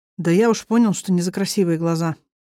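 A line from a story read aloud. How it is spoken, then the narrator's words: Sigh. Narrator (Russian): вздохнул Кир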